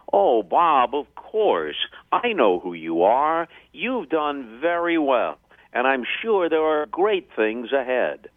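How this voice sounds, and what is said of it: Vin Scully impression. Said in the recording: “that's a very, very good Vince Scully impression”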